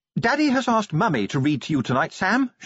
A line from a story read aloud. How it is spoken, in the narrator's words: she announced brightly